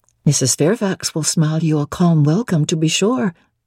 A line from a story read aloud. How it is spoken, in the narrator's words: said